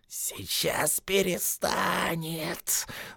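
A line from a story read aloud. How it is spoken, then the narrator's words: Spider's malicious hiss. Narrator (Russian): злобно прошипел паук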